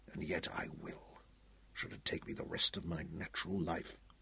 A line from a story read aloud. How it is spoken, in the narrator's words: he whispered